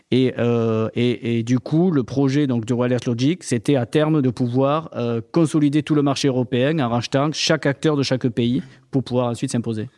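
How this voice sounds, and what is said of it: Southern French accent. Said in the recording (French): “On entend à ton accent que tu viennes du Sud.”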